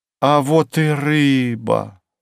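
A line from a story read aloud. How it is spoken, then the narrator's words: Delighted exclamation. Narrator (Russian): восторженно воскликнула Александра у следующего прилавка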